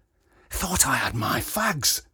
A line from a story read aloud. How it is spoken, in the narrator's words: hissed